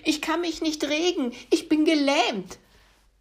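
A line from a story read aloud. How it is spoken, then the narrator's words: Called out. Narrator (German): rief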